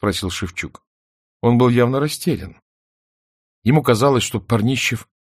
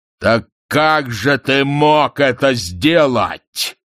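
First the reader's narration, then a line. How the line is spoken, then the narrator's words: Thunderous voice. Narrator (Russian): громовым голосом спросил Парнищев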